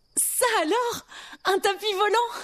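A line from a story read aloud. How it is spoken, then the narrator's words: Exclaimed. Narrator (French): s'exclama-t-elle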